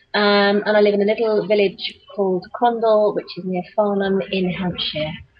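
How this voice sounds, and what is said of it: British accent. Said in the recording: “I live in the UK, as you can tell from the accent.”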